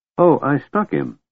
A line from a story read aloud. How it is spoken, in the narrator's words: Tass said